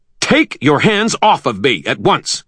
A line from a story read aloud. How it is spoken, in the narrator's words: he shouted